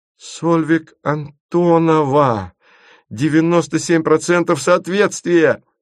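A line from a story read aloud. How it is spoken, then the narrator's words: Laughing. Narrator (Russian): засмеялась Света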